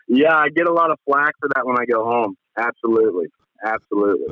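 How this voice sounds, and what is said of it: Kentucky drawl accent. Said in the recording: “does not now any longer sound like a West Coast guy ... born and bred Kentucky ... Kentucky accent ... There's a drawl.”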